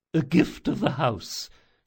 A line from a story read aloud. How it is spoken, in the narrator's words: she muttered